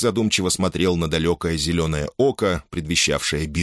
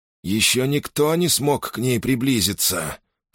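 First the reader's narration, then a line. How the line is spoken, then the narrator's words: Through gritted teeth. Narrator (Russian): проговорил он сквозь зубы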